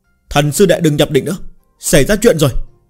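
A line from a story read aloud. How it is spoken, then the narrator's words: Shout from outside. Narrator (Vietnamese): Ngoài cửa phòng có người hét to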